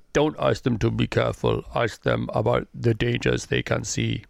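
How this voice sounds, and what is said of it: Imitates another person's voice. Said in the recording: “don't slow down with the accent, otherwise you turn into Sean Connery ... I can't do this accent at all”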